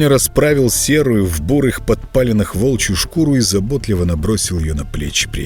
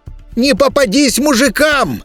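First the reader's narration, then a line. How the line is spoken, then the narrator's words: Shouted farewell. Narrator (Russian): крикнул ему на прощание Игоня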